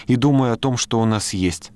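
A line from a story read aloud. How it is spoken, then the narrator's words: Sigh. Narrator (Russian): она вздохнула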